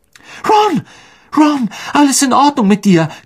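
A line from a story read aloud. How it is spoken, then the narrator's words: Shrieking. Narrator (German): kreischte Hermine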